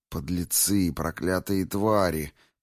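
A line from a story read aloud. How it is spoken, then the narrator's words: Hissed under breath. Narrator (Russian): прошипела она про себя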